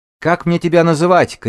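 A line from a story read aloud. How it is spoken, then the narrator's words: Shouted. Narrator (Russian): крикнула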